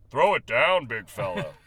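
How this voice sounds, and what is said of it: Imitates another person's voice. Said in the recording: “That was my Bill Walton impression.”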